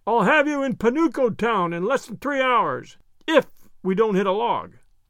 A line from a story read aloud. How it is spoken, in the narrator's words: shouted in Wimple's ear